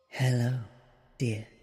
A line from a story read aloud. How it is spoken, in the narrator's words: she says in a calm and relaxed tone